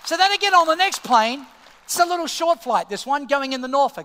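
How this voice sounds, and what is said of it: Australian accent. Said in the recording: “Oh, I'm Australia. The accent is Australia.”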